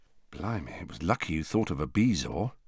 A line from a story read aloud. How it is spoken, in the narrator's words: said George in a low voice